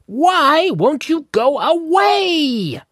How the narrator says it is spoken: Wendell cried

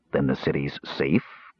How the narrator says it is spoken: Caramon had asked

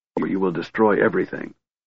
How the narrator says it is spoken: ordered Kit in a low voice

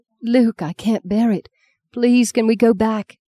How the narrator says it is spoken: gasped after less than a mile

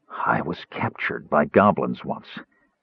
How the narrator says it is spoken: Caramon said in a hoarse whisper

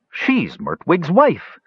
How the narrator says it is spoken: several elves exclaimed at once

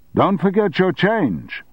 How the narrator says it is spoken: the shopkeeper shouted after him

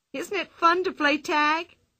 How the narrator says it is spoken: cried Pippi

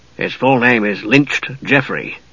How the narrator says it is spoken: said Dugan in an undertone

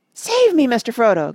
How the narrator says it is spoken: gasped Sam

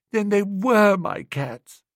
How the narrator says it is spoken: he said sadly

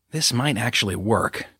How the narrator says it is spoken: Judith whispered

